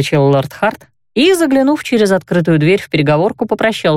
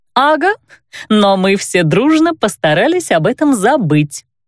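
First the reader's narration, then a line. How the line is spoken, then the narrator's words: Giggling. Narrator (Russian): хихикнула она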